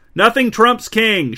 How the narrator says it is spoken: shouted King Rowan

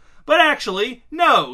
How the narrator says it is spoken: he shouted

